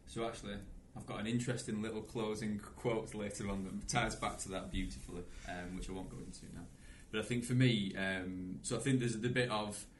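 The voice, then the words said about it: Loud Pennine Lancashire accent. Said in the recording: “it's too big usually, and it's got a beautiful Pennine Lancashire accent”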